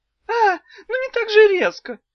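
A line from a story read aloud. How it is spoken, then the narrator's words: Tiny startled squeak. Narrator (Russian): пискнула трехдюймовочка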